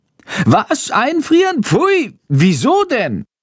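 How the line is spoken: Horrified shriek. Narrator (German): kreischt Chando entsetzt

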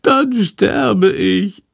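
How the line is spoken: Whining. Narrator (German): jammert Shandor

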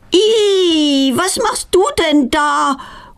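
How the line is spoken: Horrified cry. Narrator (German): ruft sie entsetzt

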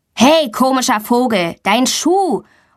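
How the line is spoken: Calling out. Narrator (German): ruft Tommy

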